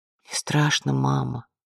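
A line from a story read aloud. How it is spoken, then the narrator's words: Child whispering. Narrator (Russian): прошептала девочка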